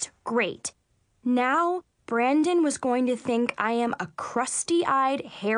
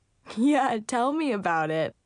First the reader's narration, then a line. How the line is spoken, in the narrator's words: Brandon laughed